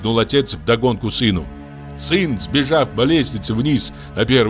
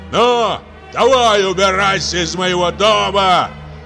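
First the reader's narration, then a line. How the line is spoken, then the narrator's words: Angry shouting man. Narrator (Russian): весь покраснев от гнева, кричал сверху вниз мужчина сыну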